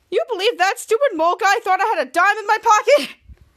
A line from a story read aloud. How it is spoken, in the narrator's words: he's laughing